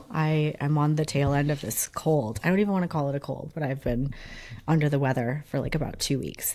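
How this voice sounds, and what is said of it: Rough, hoarse sick voice. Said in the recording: “I sound terrible ... I just sound like, like an old crabby witch ... Smoker. Yeah, it sounds terrible ... who's this guy?”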